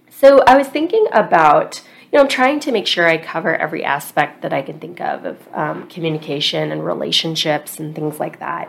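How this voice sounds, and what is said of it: Scratchy voice from a cold. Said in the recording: “I have a little bit of a cold, so please excuse the scratchy voice.”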